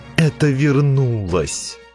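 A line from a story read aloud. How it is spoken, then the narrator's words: Groan. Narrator (Russian): простонал Дзирт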